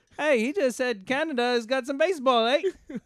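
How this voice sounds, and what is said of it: Poor put-on Australian accent. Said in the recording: “Is that your Australian accent? ... That sounded no more Australian than Canadian ... I'm terrible.”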